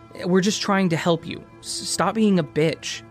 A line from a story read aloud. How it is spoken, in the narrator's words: She stammered and said